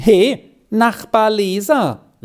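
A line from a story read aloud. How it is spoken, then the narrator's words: Call. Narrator (German): rief sie ihm zu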